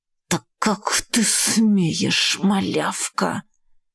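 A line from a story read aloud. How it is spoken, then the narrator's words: Angry hiss. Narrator (Russian): прошипела Рокси, гневно раздувая ноздри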